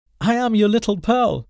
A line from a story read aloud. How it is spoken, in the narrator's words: the child answered as she laughed